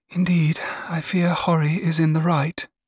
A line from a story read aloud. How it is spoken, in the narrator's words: said sadly